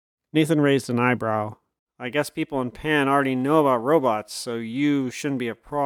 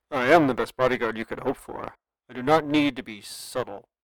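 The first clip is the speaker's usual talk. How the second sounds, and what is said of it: Deep robotic voice, British, impatient. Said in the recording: “a deep, lightly digitized voice that seemed unnaturally clear ... a hint of a BBC radio accent, but with a not-so-subtle tone of impatience”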